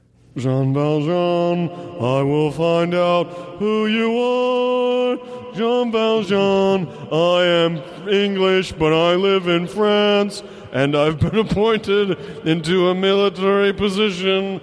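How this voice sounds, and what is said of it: Russell Crowe impression, singing. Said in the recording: “an impression of Russell Crowe singing in Les Mis ... You have reverb for him? ... Give me some reverb.”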